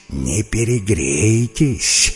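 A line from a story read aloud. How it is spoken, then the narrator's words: Irritated hiss. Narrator (Russian): шипела в ответ анаконда, у которой голова начинала болеть от крика и болтовни обезьян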